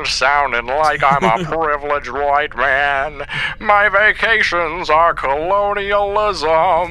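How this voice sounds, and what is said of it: Put-on transatlantic accent. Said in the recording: “transatlantic accent ... transatlantic accent”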